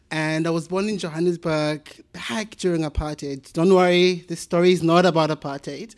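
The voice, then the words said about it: South African accent. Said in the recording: “as you can tell from my wonderful accent, I'm from South Africa”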